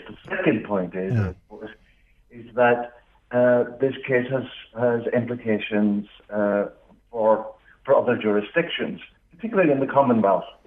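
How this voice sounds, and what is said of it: Northern Irish accent. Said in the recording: “you might pick up from my accent, I'm from Northern Ireland”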